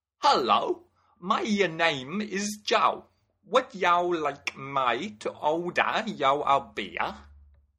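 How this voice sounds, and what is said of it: Attempted London accent. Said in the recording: “he flicked on a London accent, or so he believed”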